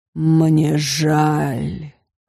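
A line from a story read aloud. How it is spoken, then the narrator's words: Moaning. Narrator (Russian): простонал он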